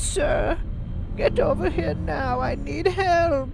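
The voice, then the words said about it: Old lady voice. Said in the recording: “Do it in an old lady voice.”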